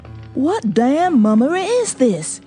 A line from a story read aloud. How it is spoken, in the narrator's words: he cried